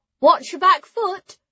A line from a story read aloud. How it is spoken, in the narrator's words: Ara called out